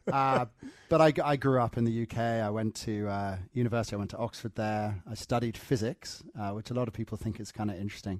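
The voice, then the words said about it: English accent. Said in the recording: “That's a great accent you picked up on the way. ... my parents moved back to the UK, obviously, to get the accent because for some reason English people sound more intelligent.”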